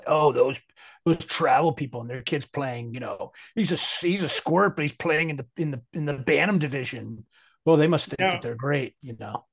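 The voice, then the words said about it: Imitates another person's voice. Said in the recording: “a really good impression of one of the people that I know”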